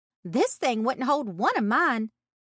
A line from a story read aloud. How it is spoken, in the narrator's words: she exclaimed